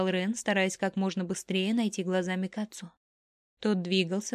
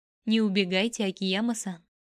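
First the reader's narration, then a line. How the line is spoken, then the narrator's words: Laughing. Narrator (Russian): смеясь остановил его Кацу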